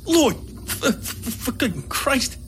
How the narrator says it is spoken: he mumbled in a hoarse whisper

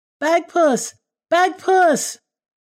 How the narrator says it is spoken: she heard a loud splash, and she cried out

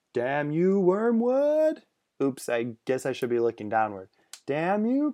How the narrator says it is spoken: her second cursed shout was truncated

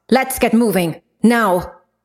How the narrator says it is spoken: She barked

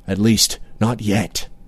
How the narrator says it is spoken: he murmured

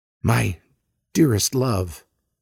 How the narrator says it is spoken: I whisper

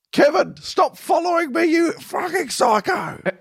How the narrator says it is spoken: Why do I keep yelling

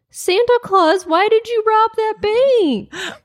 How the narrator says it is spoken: a little boy called out

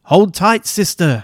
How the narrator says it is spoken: Athena yells

